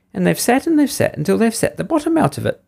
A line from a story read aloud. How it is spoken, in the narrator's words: squeaked the baby bear in his shrill little voice